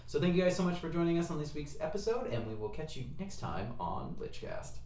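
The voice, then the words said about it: Old-time radio announcer voice. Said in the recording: “Radio voice. ... Drop into that radio announcer voice. ... I sound like old-time radio.”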